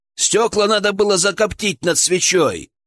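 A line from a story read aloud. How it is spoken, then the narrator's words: Shouting downward. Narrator (Russian): крикнул Александр вниз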